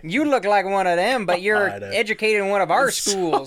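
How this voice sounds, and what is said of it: Imitates another person's voice. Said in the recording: “that's my MacArthur impression.”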